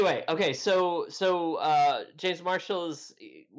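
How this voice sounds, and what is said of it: Usual voice. Nothing is said of it.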